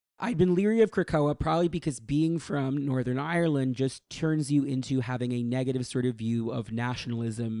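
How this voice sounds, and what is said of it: Hoarse, worn-out voice. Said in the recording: “right now, my voice is so shot”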